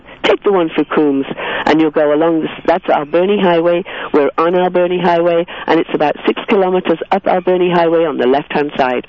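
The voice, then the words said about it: English accent. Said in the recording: “my English accent, it probably sounds like I'm saying pirate, but I'm saying parrot”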